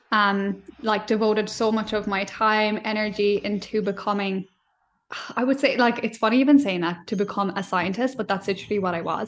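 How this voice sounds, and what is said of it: Irish accent. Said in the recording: “I'm Irish, obviously, if you can hear that already with my accent.”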